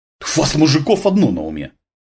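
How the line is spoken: Snorted. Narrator (Russian): фыркнула Татьяна

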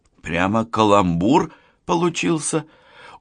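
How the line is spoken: Tired. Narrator (Russian): Устало прокомментировала слова женщины Лана

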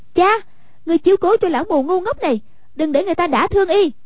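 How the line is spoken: Shout. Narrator (Vietnamese): Hoàng Dung quát

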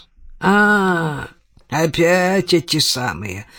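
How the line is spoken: Grumbling. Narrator (Russian): проворчал

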